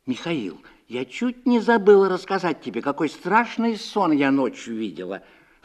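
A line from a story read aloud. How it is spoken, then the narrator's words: Anxious businesslike tone. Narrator (Russian): встревоженно деловым тоном проговорила она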